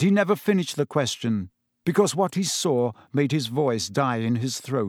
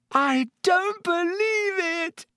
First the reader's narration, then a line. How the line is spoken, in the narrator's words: Hermione screamed